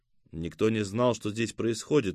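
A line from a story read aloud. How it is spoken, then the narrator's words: Gloomy. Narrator (Russian): мрачно сверкнул глазами Селим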